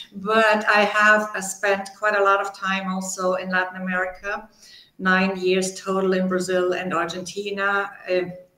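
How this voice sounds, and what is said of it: German accent. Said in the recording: “You can hear my German accent probably. It's never gone completely away”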